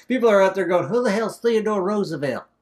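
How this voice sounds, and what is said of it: Put-on southern accent. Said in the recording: “Why am I talking with a southern accent?”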